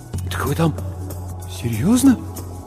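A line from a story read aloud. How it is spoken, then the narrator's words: Muttering, trembling lips. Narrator (Russian): Бормочу, а у самого губы дрожат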